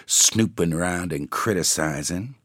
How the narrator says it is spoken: she said testily

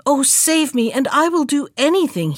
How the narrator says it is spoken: he cried

